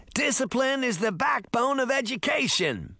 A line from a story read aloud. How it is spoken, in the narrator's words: the teacher shouted through the door